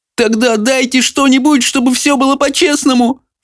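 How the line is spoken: Sobbing boy. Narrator (Russian): всхлипнул паренек

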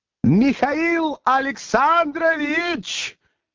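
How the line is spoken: Shouting after someone. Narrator (Russian): крикнул он вдогонку Берлиозу

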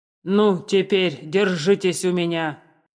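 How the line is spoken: Terrifying shout. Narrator (Russian): страшным голосом закричал Цицерон

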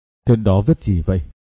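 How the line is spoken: Trembling question. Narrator (Vietnamese): Trường Ngưng run run hỏi

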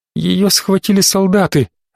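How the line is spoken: Thin emotionless child's voice. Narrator (Russian): ответил мальчик тоненьким голосом, лишенным всяких эмоций

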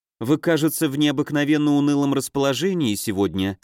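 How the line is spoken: Plain. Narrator (Russian): сказала она

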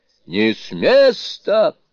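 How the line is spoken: Booming. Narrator (Russian): прогремел Суню-кун

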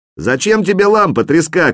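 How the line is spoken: Shouted from below. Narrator (Russian): крикнул снизу

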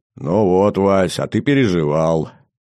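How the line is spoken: Droning voice through headphones. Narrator (Russian): прогудел в наушниках голос мехвода

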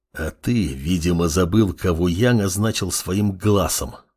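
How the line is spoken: Hissed. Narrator (Russian): прошипел Амор

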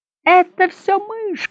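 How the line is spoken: Shouted. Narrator (Russian): крикнул

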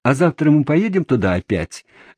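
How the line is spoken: Shouting. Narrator (Russian): закричали они

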